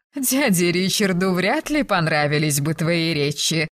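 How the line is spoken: Laughing, then serious sigh. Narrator (Russian): рассмеялась Розамунда, но тут же посерьезнее вздохнула

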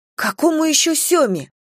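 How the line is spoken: Indignant exclamation. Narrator (Russian): воскликнула я возмущенно

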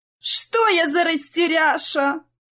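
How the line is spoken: Loud self-scolding old woman. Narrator (Russian): Громко корила себя в комнате бабушка

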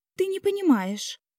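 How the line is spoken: Furious exclamation. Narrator (Russian): яростно воскликнула девушка

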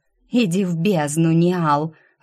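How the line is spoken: Growl. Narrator (Russian): рыкнула я

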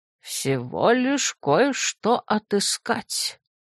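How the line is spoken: Quiet. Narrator (Russian): тихо произнес дядюшка Клаус

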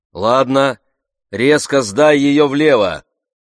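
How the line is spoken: Shouting. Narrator (Russian): Айра крикнул

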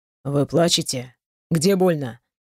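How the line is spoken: Ragged sigh. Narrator (Russian): Прерывисто вздохнула

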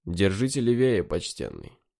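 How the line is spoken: Calm warning voice. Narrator (Russian): спокойно предупреждающий голос

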